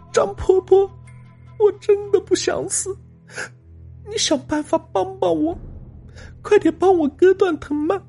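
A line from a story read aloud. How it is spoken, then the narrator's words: Bursting into tears, sobbing. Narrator (Chinese): 女孩哇的一声哭了起来，她哭着说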